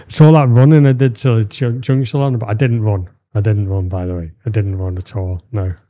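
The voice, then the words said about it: Strained, fading voice. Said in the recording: “you can't tell by my voice, because my voice is going”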